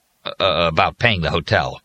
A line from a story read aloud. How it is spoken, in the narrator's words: Harper Baldwin said nervously